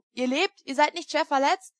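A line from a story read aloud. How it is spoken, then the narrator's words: Calling out. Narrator (German): rief ich ihm zu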